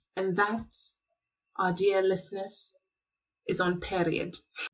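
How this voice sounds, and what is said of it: Put-on British accent. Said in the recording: “I'll try my British accent now”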